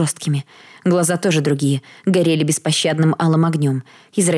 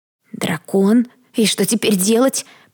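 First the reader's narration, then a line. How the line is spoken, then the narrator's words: Hoarse rasp. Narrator (Russian): прохрипела Кэрилл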